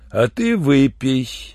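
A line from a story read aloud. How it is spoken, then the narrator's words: Insinuating mustached man. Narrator (Russian): вкрадчиво попросил усатый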